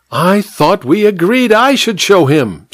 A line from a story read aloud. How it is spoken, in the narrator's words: squealed the vicar petulantly